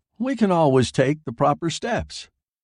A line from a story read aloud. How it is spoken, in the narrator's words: said Cartwright cheerfully